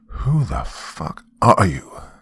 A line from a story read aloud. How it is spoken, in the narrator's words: growled